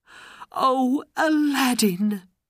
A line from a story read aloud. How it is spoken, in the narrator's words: she cried